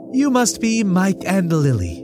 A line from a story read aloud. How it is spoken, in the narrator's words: she said, smiling brightly